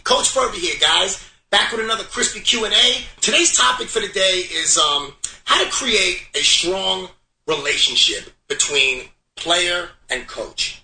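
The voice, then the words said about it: Brooklyn accent. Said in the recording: “heard it in his voice ... he's from Brooklyn. He's Brooklyn. That's Brooklyn.”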